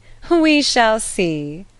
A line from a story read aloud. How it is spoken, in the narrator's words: Elton, laughing